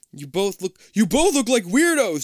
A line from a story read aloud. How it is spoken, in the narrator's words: Jason screams